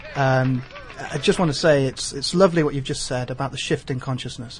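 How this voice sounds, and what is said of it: Speaker with a distinctive accent. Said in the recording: “You'll love his accent.”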